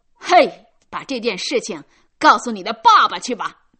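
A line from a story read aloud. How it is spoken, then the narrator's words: Child shouting. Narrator (Chinese): 一个顽童喊道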